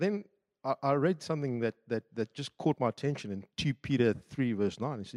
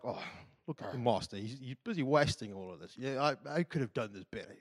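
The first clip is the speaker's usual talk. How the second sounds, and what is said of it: Put-on British accent. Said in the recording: “I don't know why I went to British accent.”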